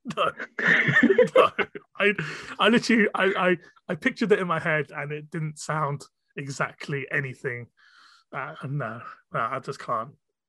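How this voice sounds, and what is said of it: Proper British accent. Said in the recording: “you can have my proper British accent ... Yeah, proper British.”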